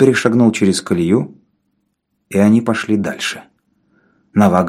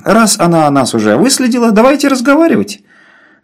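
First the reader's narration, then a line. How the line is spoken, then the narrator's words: Forced cheerful voice. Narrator (Russian): сказал Мандель неестественно веселым голосом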